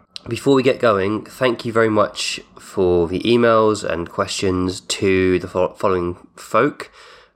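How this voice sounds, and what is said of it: Congested voice from a cold. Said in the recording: “Apologies for the state of my voice. I've got a cold. ... me coughing and sneezing throughout this episode”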